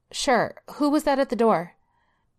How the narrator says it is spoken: Belinda called out

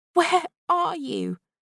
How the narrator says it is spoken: Belle begged

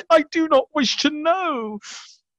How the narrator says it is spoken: He closed his streaming eyes and cried

